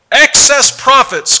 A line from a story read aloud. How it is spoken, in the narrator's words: cried the cow, Nancy Pelosi